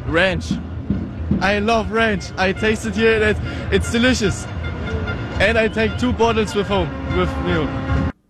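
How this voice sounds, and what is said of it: Natural German accent. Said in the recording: “his normal German accent sounds nothing like the stereotypical”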